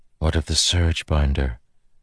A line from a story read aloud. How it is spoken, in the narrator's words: Navani whispered